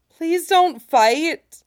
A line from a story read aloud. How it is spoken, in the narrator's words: Hebe cries